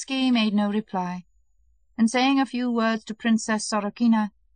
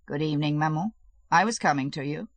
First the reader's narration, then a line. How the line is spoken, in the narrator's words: he said coldly